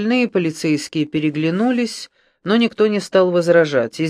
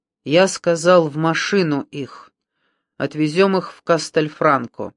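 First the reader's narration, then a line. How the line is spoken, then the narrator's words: Metallic voice. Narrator (Russian): Брунетти произнес металлическим голосом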